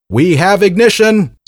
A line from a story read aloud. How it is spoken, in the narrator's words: shouted